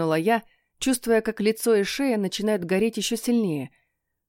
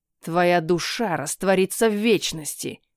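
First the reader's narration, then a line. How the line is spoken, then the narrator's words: Spiteful. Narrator (Russian): сказал он злобно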